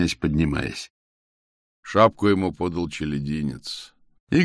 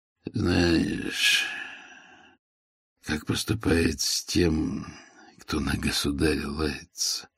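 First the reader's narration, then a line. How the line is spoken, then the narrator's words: Barely audible murmur. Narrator (Russian): проговорил Игорь еле слышно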